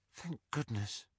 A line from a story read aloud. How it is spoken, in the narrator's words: Ginny whispered